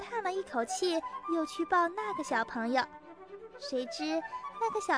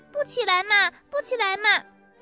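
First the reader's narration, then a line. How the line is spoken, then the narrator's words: Child whining loudly. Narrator (Chinese): 嘴里直嚷嚷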